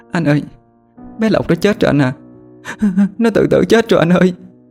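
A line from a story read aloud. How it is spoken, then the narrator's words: Sobbing lament. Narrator (Vietnamese): Dung nức nở kể lể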